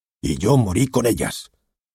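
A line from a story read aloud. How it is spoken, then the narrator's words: Exclaimed. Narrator (Spanish): exclamó Harvey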